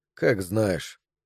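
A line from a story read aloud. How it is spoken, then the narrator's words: Tired. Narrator (Russian): сказал он устало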